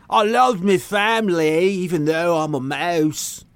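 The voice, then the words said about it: Exaggerated Cockney accent. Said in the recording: “did the voice in that outrageous Cockney accent”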